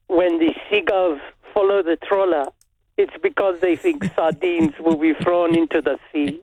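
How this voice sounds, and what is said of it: Put-on French accent. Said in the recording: “French accent.”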